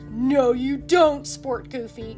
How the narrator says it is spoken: growled Pete

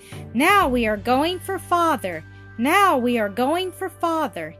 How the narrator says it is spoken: he jumped around in the room with delight and cried out again and again

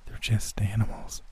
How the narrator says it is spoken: I whispered

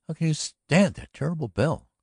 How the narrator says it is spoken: cried softly

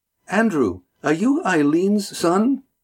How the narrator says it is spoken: Lindy exclaimed

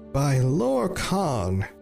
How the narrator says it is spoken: roared her father

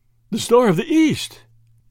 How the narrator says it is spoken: gasped Lord Yardley

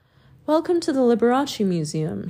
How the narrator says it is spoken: he cried to the assembled multitude

